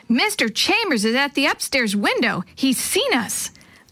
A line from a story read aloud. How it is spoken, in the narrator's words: Jenny yelled